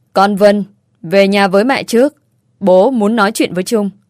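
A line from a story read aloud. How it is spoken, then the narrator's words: Cold, stern reply. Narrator (Vietnamese): Bố mẹ tôi mặt thì lạnh tanh, nghiêm nghị đáp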